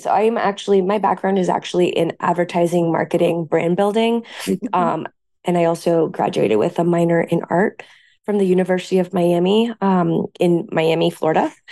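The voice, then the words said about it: Hoarse voice. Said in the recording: “my hoarse voice”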